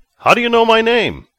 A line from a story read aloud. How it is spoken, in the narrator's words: Vic asked in a shout as he ran after the man